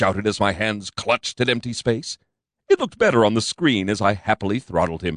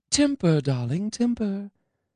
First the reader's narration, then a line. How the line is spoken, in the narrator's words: Angelina said soothingly